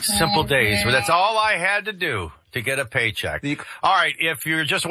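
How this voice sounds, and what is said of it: Usual voice. Nothing is said of it.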